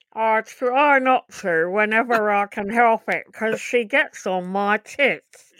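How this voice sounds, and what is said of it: Impression of Janet Street-Porter. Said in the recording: “that's a brilliant impersonation”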